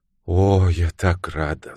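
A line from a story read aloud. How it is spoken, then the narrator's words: Relieved sigh. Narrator (Russian): заявила мисс Уэйнфлейт, облегченно вздохнув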